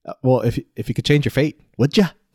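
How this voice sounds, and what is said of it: Put-on Scottish accent, Brave-style. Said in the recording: “a Scottish accent ... I just remember everybody doing that accent.”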